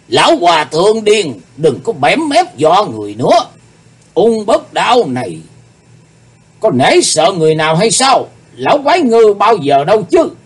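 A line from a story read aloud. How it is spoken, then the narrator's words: Demonic roaring voice. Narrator (Vietnamese): Ung Bất Đan ... nói với giọng như quỷ rống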